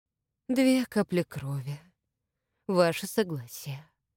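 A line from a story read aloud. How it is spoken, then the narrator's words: Breathed out. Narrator (Russian): выдохнул Сергей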